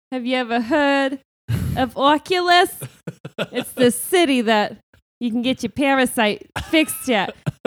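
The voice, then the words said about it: Put-on Brooklyn-style character accent. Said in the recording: “This is ... new accent. ... he's like, hey, I'm the smartest kid this side of Brooklyn, okay?”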